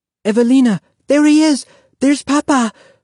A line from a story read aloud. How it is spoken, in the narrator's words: Renata cried